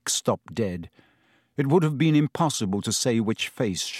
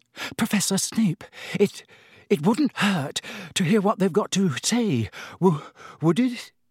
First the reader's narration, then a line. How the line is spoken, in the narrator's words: Hermione said in a very breathless voice